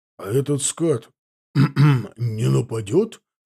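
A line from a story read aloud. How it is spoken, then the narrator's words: Smirking snort. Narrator (Russian): хмыкнул Титов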